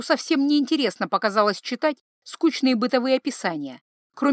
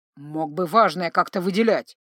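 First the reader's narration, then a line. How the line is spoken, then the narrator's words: Grumbling. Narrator (Russian): проворчал Джанни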